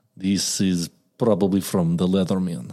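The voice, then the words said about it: Put-on Russian accent. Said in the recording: “Can you do a Russian accent? ... There you go. That's sick”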